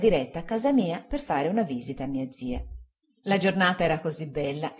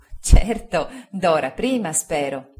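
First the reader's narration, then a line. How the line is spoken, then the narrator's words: Laughing. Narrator (Italian): disse Agnese ridendo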